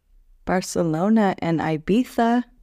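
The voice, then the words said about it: Spanish accent on a place name. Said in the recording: “I love that little Spanish accent you threw in there, as you said, Ibiza.”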